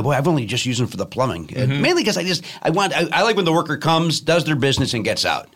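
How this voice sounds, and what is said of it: Southside Chicago accent. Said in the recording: “my dumb Southside Chicago accent”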